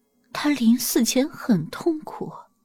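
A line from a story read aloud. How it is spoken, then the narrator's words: Soft. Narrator (Chinese): 孟琪轻声说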